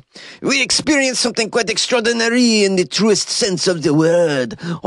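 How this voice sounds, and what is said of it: Put-on French accent. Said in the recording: “How's my French accent going? Is it okay?”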